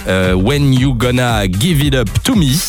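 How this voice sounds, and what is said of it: Bad put-on English accent. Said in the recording (French): “mauvais accent.”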